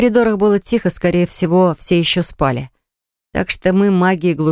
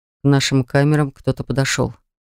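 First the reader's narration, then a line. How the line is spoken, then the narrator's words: Quiet. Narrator (Russian): тихо сообщил он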